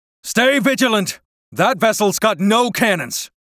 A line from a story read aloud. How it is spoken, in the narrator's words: the former first mate, now captain, yells to the crew